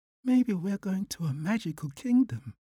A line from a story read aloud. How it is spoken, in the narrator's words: whispered Manju